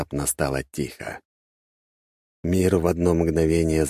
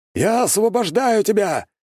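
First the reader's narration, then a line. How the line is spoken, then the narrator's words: Shouting. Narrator (Russian): крикнул он снова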